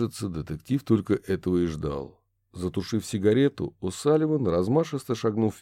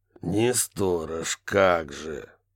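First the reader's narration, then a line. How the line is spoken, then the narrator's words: Low, through teeth. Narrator (Russian): Низко процедил Барри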